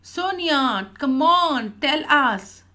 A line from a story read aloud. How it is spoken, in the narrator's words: Jens shouted in unison